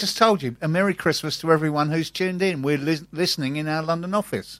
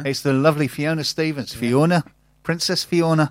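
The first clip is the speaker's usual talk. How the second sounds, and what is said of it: Poor put-on Scottish accent. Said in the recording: “Your accent's terrible. ... Your Scottish accent is awful.”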